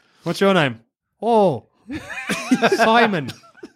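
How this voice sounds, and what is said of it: Canadian / Minnesotan accent impression. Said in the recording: “some weird Canadian guy ... Great impression ... That's more Fargo. I'm in Minnesota.”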